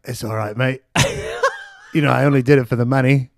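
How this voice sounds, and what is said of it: Poor imitation of another person's voice. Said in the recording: “that's a terrible impression. It's nothing like Rick Ocasek sounded.”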